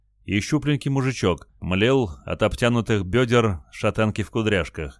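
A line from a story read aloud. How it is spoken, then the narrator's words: Plain. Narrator (Russian): ответил Олег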